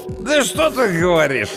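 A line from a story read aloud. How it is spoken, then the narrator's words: Drunken laughing. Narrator (Russian): рассмеялся пьяный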